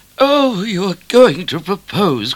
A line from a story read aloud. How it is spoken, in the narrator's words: cried Mrs